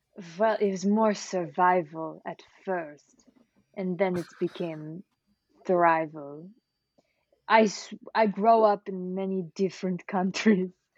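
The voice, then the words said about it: Put-on mixed foreign accent. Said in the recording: “my accent's very confusing to myself... it definitely sounds Muskranian”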